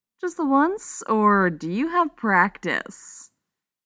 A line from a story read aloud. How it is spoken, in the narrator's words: Steve chuckled